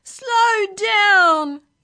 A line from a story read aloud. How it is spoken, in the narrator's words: yelled the passengers